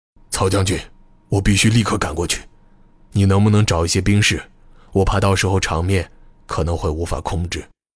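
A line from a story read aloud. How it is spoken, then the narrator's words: Low, serious voice. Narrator (Chinese): 王维仁终于沉住气，他压低声音，神色严肃地对曹孟虎说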